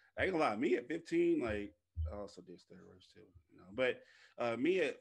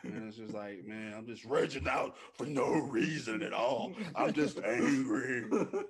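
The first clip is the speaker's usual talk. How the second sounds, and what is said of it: Angry ranting teenage voice. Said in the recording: “That's my imitation of me being a 15.”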